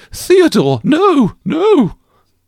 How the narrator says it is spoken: Caroline exclaimed

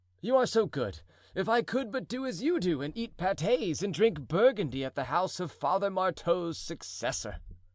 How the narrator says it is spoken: cried the duke

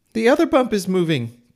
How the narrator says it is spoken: cried Owl

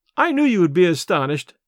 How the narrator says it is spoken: laughed Desiree

